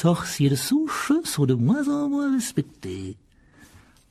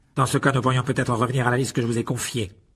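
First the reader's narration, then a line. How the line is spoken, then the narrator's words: Firm, final tone. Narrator (French): dit Monsieur Malfoy d'un ton sans réplique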